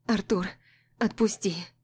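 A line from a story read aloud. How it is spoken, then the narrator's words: Trembling plea, then sob. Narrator (Russian): Дрожащим голосом прошу я, а потом всхлипываю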